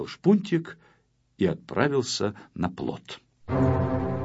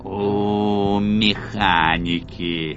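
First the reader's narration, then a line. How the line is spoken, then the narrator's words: Creaky grumble. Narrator (Russian): проворчал скрипучим голосом злоумышленник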